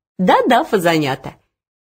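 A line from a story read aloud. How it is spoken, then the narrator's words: Cheerful. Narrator (Russian): весело продолжала она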